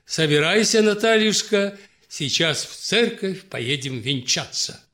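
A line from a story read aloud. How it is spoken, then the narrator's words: Cheerful, smiling. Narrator (Russian): князь Иван улыбнувшись ей все так же весело, заключил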